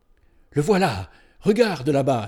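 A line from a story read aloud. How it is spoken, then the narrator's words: Exclaimed. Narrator (French): s'écria Iras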